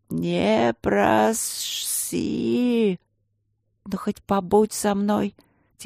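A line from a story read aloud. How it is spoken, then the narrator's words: Quiet plea. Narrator (Russian): тихо попросила Катя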